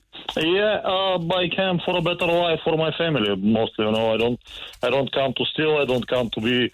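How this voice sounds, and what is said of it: Non-native English accent. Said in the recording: “your accent”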